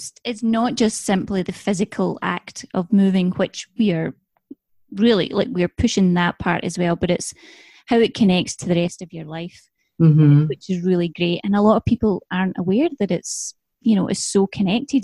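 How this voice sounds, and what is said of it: Scottish accent, soothing. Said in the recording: “the Scottish accent, sometimes I just sit here and I start to ... cute ... I just get lulled into this like happy little spot”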